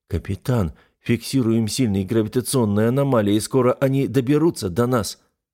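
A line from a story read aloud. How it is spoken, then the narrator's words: Uncertain first mate. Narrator (Russian): помощника капитана, который неуверенно сказал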